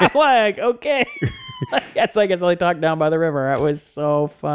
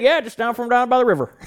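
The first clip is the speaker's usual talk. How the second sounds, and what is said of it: Strong Southern US accent. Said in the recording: “he has this really strong like Southern accent”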